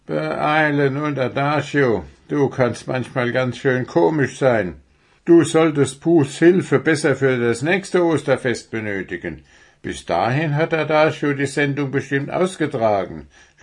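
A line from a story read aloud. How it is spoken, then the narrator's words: Mocking. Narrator (German): spottete Prestissimo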